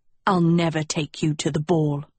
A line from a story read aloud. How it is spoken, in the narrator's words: Tedros spat